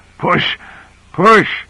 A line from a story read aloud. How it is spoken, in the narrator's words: Grant gasping out